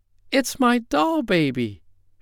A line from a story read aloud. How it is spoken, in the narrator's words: she cried